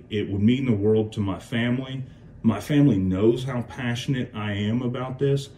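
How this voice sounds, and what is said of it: Choked-up, emotional voice. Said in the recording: “getting choked up right now”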